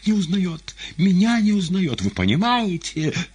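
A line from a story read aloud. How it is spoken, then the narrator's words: Sobbing. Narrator (Russian): зарыдала секретарь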